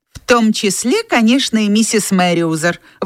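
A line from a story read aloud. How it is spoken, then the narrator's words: Indignant exclamation. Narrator (Russian): возмущенно вскричала миссис Смит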